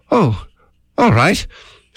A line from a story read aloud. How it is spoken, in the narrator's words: sighed Pooh